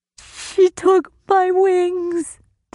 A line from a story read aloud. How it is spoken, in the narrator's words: the fairy sobbed